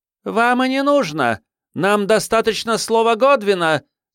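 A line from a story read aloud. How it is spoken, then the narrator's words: Woman shouting. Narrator (Russian): крикнула миссис Крэг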